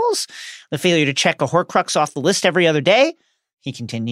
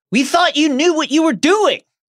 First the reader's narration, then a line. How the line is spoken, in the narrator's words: shouted Ron